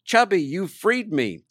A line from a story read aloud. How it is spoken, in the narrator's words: howls and screams